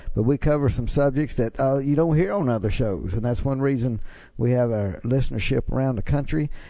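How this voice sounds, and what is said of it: Mississippi Southern American accent. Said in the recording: “I can't get rid of my Mississippi accent, so it's with me, and listeners know that.”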